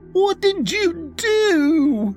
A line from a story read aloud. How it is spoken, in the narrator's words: she screeched at me